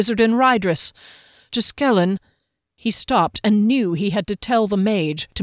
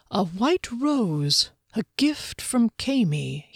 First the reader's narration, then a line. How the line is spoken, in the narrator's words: he murmured